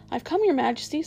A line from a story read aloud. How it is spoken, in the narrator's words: said Edmund, rushing eagerly forward